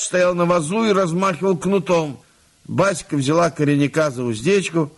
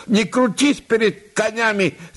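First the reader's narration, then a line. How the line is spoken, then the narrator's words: Shouted in despair. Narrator (Russian): закричал он в отчаянии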